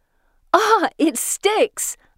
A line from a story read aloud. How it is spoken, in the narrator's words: I shout